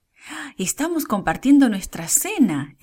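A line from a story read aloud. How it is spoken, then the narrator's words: Exclaimed. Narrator (Spanish): exclamó Débora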